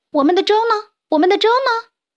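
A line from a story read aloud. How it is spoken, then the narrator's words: Little animals shouting together. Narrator (Chinese): 小动物们一起在喊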